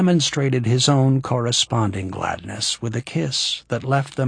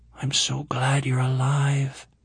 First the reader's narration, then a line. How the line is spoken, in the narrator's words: she whispered